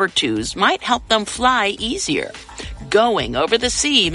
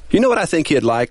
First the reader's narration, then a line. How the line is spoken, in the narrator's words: Woody chuckled